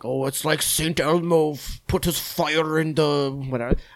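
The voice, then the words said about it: Put-on unidentified accent. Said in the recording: “I don't know what accent I'm doing there, but. ... It wasn't bad.”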